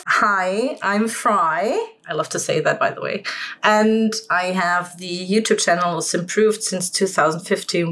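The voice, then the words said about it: German accent. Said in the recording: “I'm German, if you can tell by my accent.”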